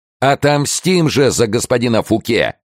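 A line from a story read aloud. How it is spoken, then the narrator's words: Fervent crowd shouting. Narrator (Russian): кричали в толпе наиболее пылкие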